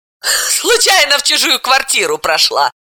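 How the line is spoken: Laughing. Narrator (Russian): рассмеялась Далила

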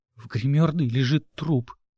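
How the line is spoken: Sobbing mumble. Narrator (Russian): сквозь всхлипы пробормотала я

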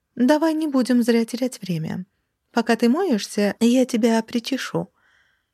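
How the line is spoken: Ingratiating. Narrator (Russian): вкрадчиво предложила она

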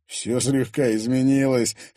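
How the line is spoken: Chuckling. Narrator (Russian): хохотнул боец

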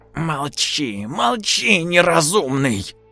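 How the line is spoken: Woman hissing. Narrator (Russian): прошипела женщина

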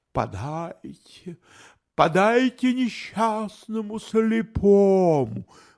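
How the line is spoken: Sudden. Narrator (Russian): вдруг произнес он

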